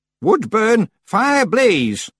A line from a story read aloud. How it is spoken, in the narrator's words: she shouted